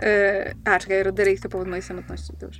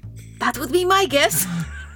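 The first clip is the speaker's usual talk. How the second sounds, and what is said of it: Whispering. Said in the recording (Polish): “szeptem”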